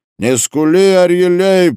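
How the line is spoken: Shout. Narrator (Russian): закричал ему Хаим Дронг

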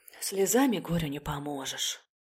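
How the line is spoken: Mother's sigh. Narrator (Russian): вздохнула мама

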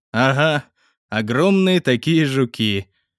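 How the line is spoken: Wry snort. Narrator (Russian): хмыкнул я

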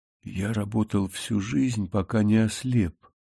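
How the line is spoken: Old man whispering. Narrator (Russian): прошептал старик

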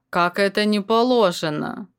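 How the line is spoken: Indignant old man grumbling. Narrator (Russian): ворчал самый седой и морщинистый из них, словно старый дуб, изъеденный временем и негодованием

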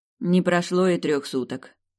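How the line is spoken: Grumbled. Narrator (Russian): проворчала та

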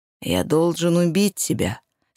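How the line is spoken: Very quiet, menacing. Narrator (Russian): сказал психопат очень тихо

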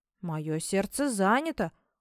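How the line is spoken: Sullen mutter. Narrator (Russian): угрюмо пробормотал я

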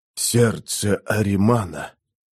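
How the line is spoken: Whispering man. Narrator (Russian): смуглый и сильный мужчина прошептал

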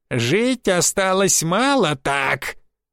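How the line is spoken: Sinister nasal voice behind. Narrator (Russian): раздался зловещий гнусавый голос за спиной

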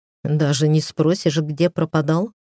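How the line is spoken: Wry snort. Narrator (Russian): хмыкнул Стас

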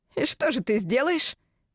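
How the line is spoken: Scoffing grunt. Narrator (Russian): хмыкнул Гастон

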